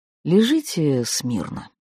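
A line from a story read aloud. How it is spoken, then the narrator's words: Sighing speech. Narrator (Russian): вздохнув, проговорил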